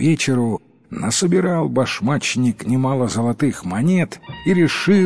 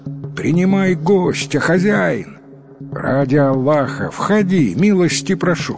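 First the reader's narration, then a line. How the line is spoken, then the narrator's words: Shouted. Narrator (Russian): прокричал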